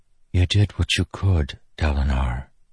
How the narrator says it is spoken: she whispered after a time watching

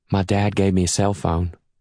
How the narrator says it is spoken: Anna says in that sweet voice of hers

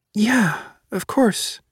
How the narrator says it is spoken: Juliet says quietly

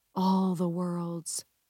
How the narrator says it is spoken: she whispers

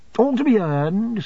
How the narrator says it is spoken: said I cheerfully

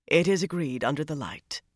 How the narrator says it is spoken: Zaida murmured

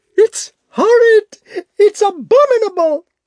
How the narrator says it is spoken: she screamed

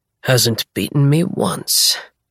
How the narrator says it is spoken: he mumbles

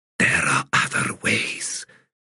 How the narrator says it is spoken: she whispered

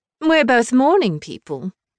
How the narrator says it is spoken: Scarlet said, her voice bright

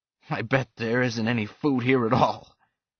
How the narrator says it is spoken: Pickard laughed

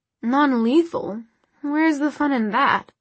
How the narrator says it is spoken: Sebastian purred

